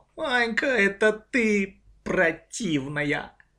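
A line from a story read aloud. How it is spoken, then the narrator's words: Hearty laughing older sister. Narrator (Russian): Старшая сестра расхохоталась от души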